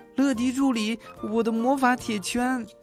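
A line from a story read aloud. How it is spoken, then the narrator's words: Calling. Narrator (Chinese): 莫里茨开始叫乐迪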